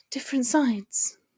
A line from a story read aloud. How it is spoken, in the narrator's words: she repeated in a solemn tone